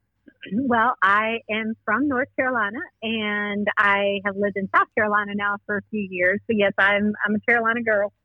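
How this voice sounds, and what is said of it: Southern Carolina accent. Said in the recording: “I love the Southern accent. ... you're talking with that Carolina accent”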